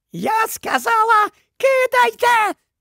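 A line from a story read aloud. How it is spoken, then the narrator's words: Female shriek. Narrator (Ukrainian): заверещала вона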